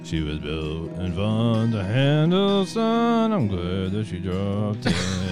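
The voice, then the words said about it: Imitates another person's singing voice. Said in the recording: “your impression of George Jones”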